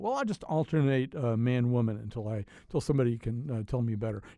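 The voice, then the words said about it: Polished radio announcer voice. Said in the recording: “you have a great radio voice”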